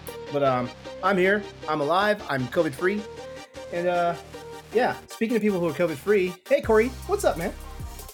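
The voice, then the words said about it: Strained voice with unsteady pitch. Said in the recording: “please forgive my voice because I am still recovering from COVID... you might hear me have all sorts of tenor and octaves to my voice”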